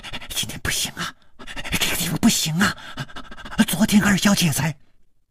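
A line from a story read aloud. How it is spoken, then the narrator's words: Cut off mid-sentence. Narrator (Chinese): 他的嘴还没有说完，就好像被什么东西给堵住了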